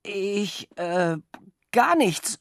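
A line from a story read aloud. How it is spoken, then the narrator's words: Stuttering. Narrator (German): stotterte ich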